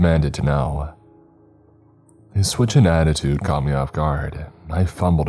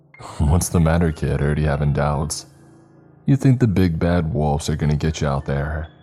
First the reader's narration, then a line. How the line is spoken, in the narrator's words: He poked questions at me teasingly